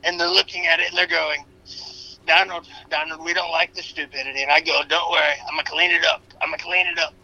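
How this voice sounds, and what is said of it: Donald Trump impression. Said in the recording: “an impersonation for entertainment and educational purposes ... the real Donald Trump”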